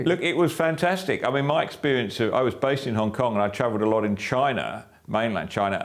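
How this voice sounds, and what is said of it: English-sounding accent. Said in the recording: “An Australian POM ... an Australian with a POMy accent”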